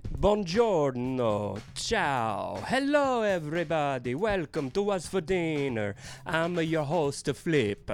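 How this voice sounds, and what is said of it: Deliberately bad Italian accent. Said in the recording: “why am I talking like a really bad Italian?”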